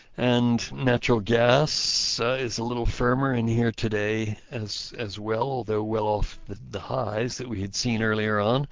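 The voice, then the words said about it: Hoarse, strained voice. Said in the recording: “sorry, I'm losing my voice here”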